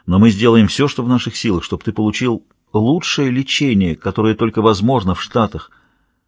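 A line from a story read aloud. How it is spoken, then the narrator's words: Very quiet. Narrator (Russian): очень тихо произнес О'Нил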